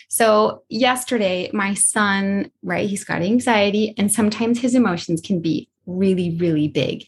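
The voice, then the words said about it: Choked up, emotional voice. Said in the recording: “I'm getting a little bit choked up”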